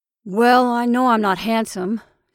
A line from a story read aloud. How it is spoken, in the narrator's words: said one gloomily